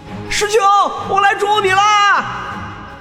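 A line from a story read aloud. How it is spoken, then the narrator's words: High-pitched distant shout. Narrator (Chinese): 一道声调极高的声音划破天际，远远传来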